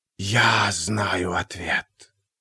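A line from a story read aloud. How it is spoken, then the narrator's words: Hissing whisper from behind. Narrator (Russian): послышался сзади свистящий шепот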